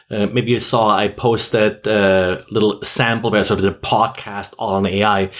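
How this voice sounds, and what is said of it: Speaks with a beautiful accent. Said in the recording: “your beautiful accent”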